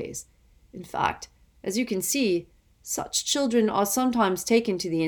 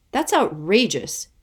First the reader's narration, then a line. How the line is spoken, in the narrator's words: Kate exclaimed